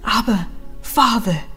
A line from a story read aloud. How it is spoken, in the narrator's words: he cries